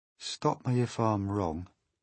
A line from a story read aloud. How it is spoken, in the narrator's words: murmured the centipede, going white in the face